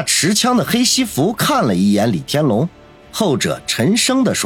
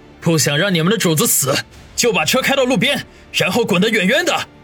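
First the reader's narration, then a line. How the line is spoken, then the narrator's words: Roaring. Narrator (Chinese): 向着前面两个黑衣人吼道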